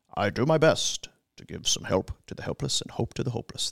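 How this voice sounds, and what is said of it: Imitates another person's voice. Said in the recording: “my Peter Klein impression ... I don't think that sounds like him at all.”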